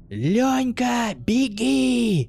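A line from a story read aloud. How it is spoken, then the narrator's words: Desperate shout. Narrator (Russian): отчаянно закричал распластавшийся на земле Санька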